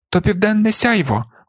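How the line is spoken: Exclaimed. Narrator (Ukrainian): вигукнув Сампо

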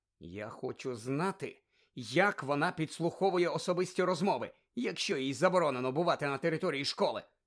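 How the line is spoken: Angry. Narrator (Ukrainian): сердито мовила Герміона

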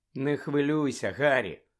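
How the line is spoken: Gentle. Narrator (Ukrainian): лагідно додала Герміона

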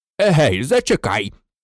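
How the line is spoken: Furious barking. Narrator (Ukrainian): гаркнув дядько Вернон, люто

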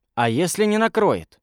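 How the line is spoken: Plain. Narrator (Russian): спросил Рыжик

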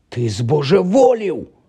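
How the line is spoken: Exclaimed. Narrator (Ukrainian): вигукнув Рон

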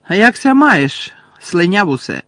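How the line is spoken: Loud greeting. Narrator (Ukrainian): голосно привітався Джеймс

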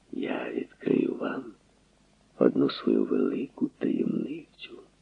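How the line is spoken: Quiet conspiratorial voice. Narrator (Ukrainian): сказав тихим змовницьким голосом

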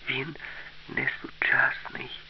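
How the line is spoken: Quiet, frightened. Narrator (Ukrainian): сказала тихо і сама злякалася свого відкриття

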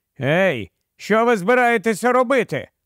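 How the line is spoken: Exclamation. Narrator (Ukrainian): вигукнув землянин

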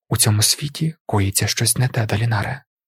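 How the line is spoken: Quiet. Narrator (Ukrainian): тихо сказала Навані

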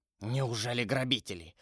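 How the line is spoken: Mumbling. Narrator (Russian): пробормотал он

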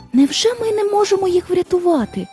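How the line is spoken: Girl exclaiming. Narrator (Ukrainian): вигукнула дівчинка

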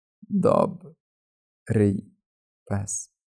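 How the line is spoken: Harsh cracked voice. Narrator (Ukrainian): вимовив він різким, натріснутим голосом

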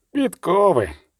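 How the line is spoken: Grumbled. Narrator (Ukrainian): буркнув Полі Дельберг

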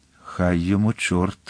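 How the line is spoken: Muttered through teeth. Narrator (Ukrainian): пробурмотів крізь зуби

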